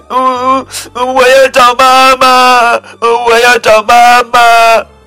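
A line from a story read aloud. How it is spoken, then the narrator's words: Crying loudly. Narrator (Chinese): 布朗宝贝大声哭起来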